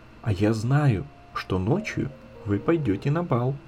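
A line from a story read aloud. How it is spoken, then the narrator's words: Child's very quiet whisper. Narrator (Russian): маленькая Ида шепнула им тихо-тихо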